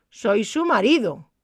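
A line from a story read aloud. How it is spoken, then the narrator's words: Intruder shouting. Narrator (Spanish): gritó el intruso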